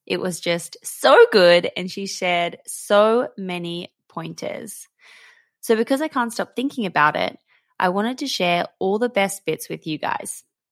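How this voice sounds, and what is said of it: Scratchy, slightly hoarse voice. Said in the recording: “my voice is a little bit scratchy today ... I'm still not 100%. And my voice is letting me down”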